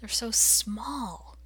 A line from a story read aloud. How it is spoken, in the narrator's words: he would whisper to Rodney